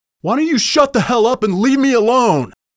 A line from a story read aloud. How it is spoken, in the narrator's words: RJ yelled